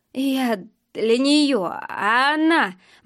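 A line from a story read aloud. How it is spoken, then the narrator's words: Muttered. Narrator (Russian): бормотал Женя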